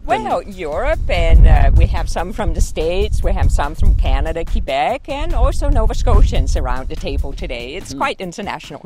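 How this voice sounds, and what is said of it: Danish accent in English. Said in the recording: “that's why the accent is there. I'm from Denmark originally.”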